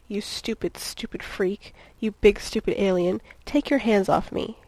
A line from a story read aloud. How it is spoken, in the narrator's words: ended on a growl